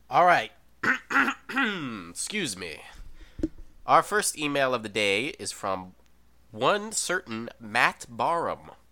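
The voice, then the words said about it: Sudden put-on accent. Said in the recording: “Where did you get that accent? You, like, started talking and suddenly you had an accent. ... a specific email-based accent ... this is my email-based accent”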